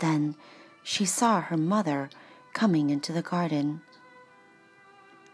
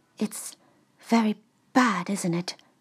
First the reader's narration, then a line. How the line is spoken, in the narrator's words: Her mother asked the young man in a worried voice